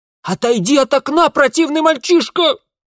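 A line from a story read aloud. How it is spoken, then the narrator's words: Hysterical female screaming. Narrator (Russian): Завопил в ответ истеричный женский голос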